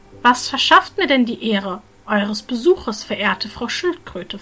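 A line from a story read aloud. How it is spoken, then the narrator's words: Plain. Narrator (German): fragte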